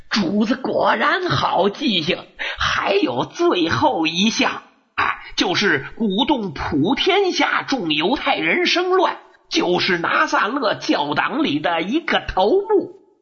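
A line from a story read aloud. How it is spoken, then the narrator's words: Hasty fawning smile. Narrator (Chinese): 书记员赶紧堆上笑脸说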